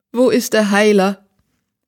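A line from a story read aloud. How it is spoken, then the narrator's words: Whimpered. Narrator (German): wimmerte die Königin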